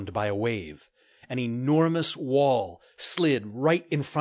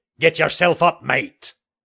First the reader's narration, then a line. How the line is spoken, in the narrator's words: a deep, gravelly voice barked